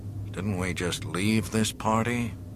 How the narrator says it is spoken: Chewbacca grunted

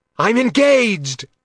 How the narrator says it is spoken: Logan shouted

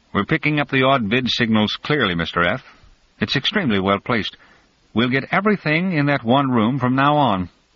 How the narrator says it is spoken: a receiver speaker, grafted subdermal so as to be invisible, piped

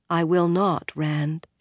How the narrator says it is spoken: said in a more serious voice

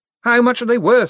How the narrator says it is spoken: shouted Moist

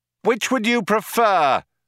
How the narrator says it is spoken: shouted Ford

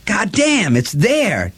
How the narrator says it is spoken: Delavan said excitedly

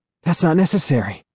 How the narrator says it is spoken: the wheezy man says

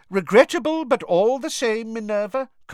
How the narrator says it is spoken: Cornelius Fudge was saying loudly

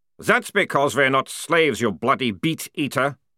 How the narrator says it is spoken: growled one of the troopers

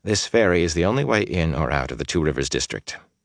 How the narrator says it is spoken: he said in a carefully level tone

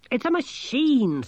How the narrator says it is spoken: snapped Angelo

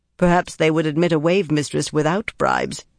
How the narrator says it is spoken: Harina said dryly

